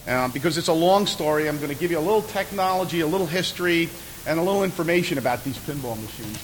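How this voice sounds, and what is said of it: New York accent. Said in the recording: “I'm from New York, as you probably got from my accent”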